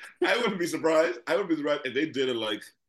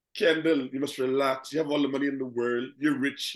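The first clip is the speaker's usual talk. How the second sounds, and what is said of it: Put-on Bahamian accent. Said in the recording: “that's your Bayesian accent.”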